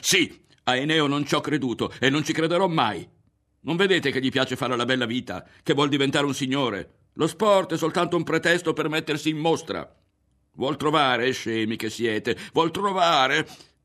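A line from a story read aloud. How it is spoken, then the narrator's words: Yelling. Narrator (Italian): con l'impressione di buttarsi a capofitto, e urlò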